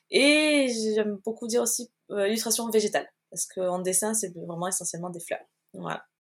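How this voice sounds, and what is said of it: Slight southern French Marseille accent. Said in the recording (French): “tu as un petit accent du sud. ... De Marseille.”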